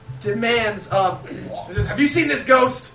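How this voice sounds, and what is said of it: Character voice with an accent. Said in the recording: “Give him an accent.”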